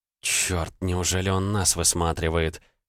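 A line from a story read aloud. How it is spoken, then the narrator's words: Disappointed whisper. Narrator (Russian): разочарованно прошептала Элли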